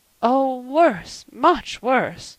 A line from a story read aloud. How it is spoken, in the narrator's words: moaned Mrs